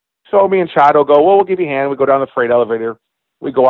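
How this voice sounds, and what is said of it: Usual voice. Nothing is said of it.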